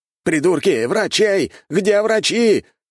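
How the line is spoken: Courtier shouting. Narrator (Russian): выкрикнул придворный

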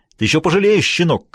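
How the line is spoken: Shouted. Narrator (Russian): крикнул он

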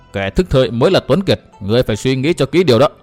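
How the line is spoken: Cold sneering. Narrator (Vietnamese): Dịch Thiên Hành lại cười nhạt

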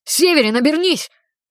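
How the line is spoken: Shouted. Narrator (Russian): крикнул я

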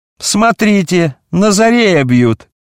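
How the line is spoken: Sudden shout. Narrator (Russian): Вдруг кто-то крикнул

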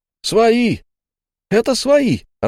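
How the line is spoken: Joyful shouting. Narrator (Russian): радостно кричал он

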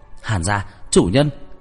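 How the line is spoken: Alarmed cry. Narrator (Vietnamese): Thuộc hạ của Nam Liệt và Hàn Mạc nhìn thấy một bức tường đã chia rẽ, liền kêu lên

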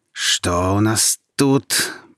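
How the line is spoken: Hissed. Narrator (Russian): прошипел он

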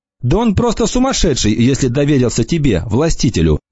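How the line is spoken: Plain. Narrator (Russian): сказала Анана

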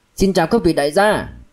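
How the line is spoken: Loud greeting. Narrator (Vietnamese): Mã Nguyên lớn tiếng chào

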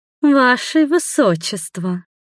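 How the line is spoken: Grating, nasty drawl. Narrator (Russian): Противно до зубного скрежета протянула эта зеленая гоблинша

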